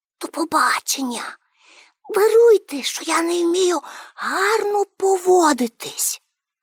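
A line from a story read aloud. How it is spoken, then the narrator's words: Whispered. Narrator (Ukrainian): Пеппі пошепки сказала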